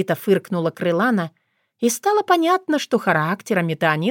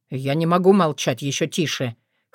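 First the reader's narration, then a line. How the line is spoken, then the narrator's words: Snorting. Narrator (Russian): хмыкнул он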